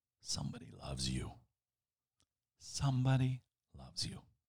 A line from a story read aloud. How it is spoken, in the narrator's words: the dust cloth seemed to whisper